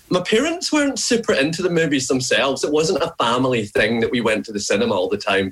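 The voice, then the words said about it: Scottish accent. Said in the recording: “through the accent over the last couple of years that I'm, you know, I'm not from here originally ... I was born in Glasgow”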